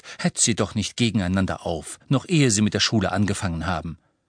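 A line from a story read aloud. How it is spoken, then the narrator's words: Half stern, half amused. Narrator (German): sagte Hermine halb streng, halb belustigt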